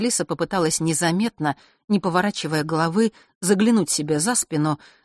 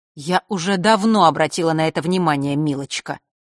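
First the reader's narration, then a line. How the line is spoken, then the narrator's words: Snide reply. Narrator (Russian): ехидно ответила темная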